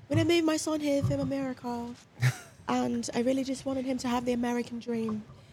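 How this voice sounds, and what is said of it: Thick British accent. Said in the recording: “she has a thick ass British accent.”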